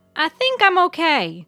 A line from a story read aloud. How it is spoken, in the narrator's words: she hollered